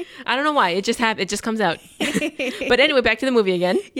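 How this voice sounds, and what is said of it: Usual voice. Nothing is said of it.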